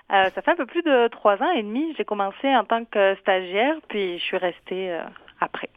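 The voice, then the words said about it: Southern French accent. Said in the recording (French): “Je détecte un accent du Midi.”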